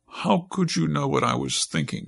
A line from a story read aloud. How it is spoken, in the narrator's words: she asked